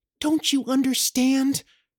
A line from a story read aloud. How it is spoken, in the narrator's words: pleaded with him, and her voice shook